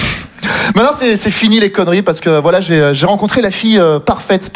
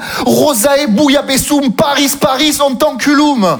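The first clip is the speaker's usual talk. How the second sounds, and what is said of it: Put-on Southern French accent. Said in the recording (French): “Moi, je viens du Sud ... Et avec l'accent, sinon ça marche pas.”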